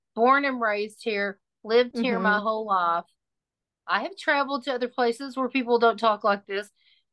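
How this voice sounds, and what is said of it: Texan accent. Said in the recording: “this is my accent because I am a native Texan”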